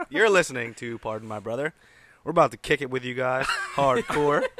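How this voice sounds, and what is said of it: Congested, stuffy head-cold voice. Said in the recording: “As you can tell, I have a head cold.”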